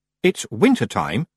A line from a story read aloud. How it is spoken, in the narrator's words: she said coldly